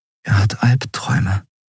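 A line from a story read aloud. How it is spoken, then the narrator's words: Whispered. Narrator (German): flüsterte Endriel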